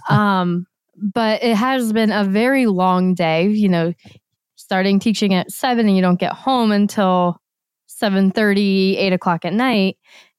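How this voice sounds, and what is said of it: Slightly hoarse, crackly voice. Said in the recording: “my voice is a little hoarse today ... my voice is a little crackly”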